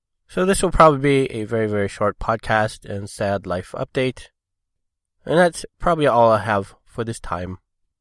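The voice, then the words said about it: Voice sounds rough and unwell. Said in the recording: “as you can probably hear, I sound really terrible.”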